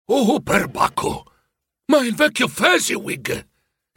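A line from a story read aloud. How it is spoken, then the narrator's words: Excited exclamation. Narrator (Italian): esclamò emozionato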